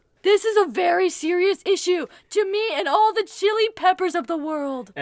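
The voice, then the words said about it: Sarcastic, mock-serious delivery. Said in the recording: “you better not be being sarcastic ... The way you said that was not serious at all.”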